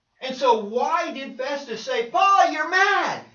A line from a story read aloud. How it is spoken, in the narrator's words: He yelled it with a loud voice